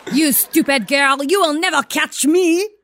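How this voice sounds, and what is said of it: Put-on phony French accent. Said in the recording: “Oh, she's French. ... She's a phony French person. She's phony as F. ... She's got the coolest accent.”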